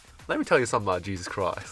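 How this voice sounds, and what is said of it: Put-on American accent. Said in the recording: “my best American accent impersonation”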